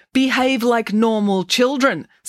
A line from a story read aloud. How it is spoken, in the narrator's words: snapped Professor Maynard